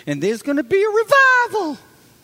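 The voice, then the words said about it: Voice rising to a high pitch. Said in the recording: “whenever I say that word, my voice gets high.”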